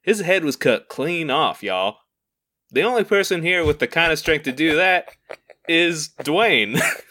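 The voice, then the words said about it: Cowboy character accent. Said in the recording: “that's actually probably what the bad cowboy would say ... let's say he's doing this accent”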